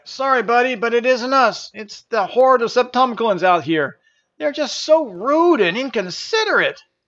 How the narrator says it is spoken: Janus yelled back

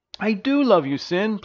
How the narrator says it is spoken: pleaded Elodia

